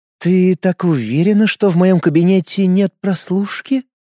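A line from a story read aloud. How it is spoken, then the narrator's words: Purring voice. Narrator (Russian): промурлыкала директриса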